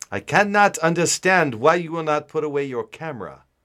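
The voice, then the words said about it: Put-on German accent, no contractions. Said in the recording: “maintain a German accent and not have it turn Irish ... my German accent will totally take a shit ... is that a German accent that you're doing right now ... I just don't use contractions, and uh, you pretty much sound like a German who speaks really good English”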